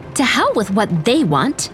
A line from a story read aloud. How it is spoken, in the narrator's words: Elsie snapped